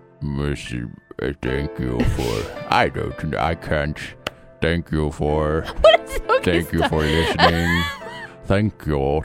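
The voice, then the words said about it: Imitates a movie villain's voice. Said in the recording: “do your thank you in the bad guy impersonation ... The bad guy? ... Jermaine Clement?”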